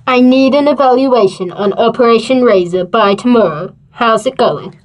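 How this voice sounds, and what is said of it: Weird disguised voice. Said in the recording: “Why do you talk in that weird voice?”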